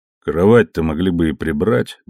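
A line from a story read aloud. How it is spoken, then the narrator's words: Gruff mutter. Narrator (Russian): буркнул Борис Марленович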